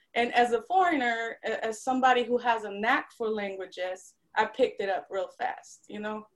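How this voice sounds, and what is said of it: Slight Polish accent, Southern twang. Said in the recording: “you can tell that little Polish lilt ... Eastern European accent”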